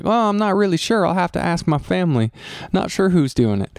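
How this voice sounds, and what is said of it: Attempted Southern accent. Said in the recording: “That's my, my attempt at a Southern accent.”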